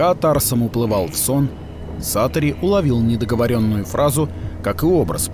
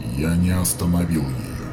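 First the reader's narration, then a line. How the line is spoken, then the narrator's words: Quiet reply. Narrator (Russian): тихо ответил зодчий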